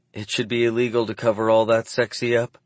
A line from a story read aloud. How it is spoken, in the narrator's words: she sighs